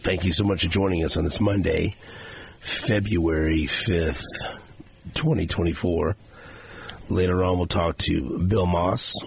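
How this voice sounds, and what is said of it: Hoarse, strained voice. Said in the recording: “I'm better than you, it sounds like ... Sorry you lost your voice.”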